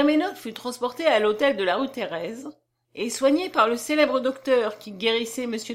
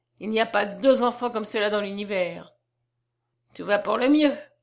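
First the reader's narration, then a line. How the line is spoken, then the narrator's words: Sneering. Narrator (French): ricana Monsieur Lecoq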